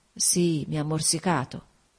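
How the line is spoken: Murmuring. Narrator (Italian): mormorò

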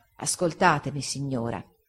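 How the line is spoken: Soft and calm. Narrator (Italian): egli rispose, piano e calmo

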